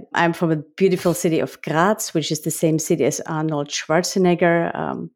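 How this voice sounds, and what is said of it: Austrian accent in English. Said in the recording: “The accent that you all discover is because I'm from Austria”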